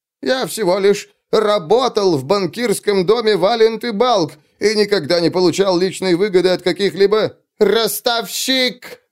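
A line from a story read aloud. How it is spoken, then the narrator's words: Yelling. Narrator (Russian): завопил кто-то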